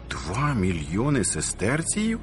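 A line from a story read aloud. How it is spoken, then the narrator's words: Amazed exclamation. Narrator (Ukrainian): вигукнув зачудовано Доміціан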